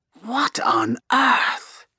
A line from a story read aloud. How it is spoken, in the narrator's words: Electra Stormscourge murmurs, like she's witnessing something obscene